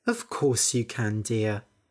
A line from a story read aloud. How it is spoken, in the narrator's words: Mum sighed and said